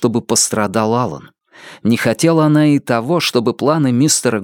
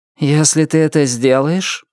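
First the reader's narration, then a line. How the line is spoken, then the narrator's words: Gloomy declaration. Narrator (Russian): мрачно заявил внутренний голос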